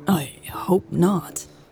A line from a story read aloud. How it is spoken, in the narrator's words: Louise stammered